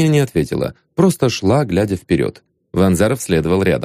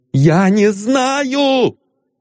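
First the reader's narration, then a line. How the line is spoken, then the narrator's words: Desperate shout. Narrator (Russian): с отчаянием крикнула Агния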